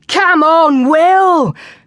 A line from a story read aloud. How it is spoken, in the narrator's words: cried the boys